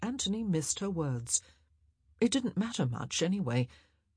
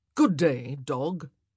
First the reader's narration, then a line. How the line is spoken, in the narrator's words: said firmly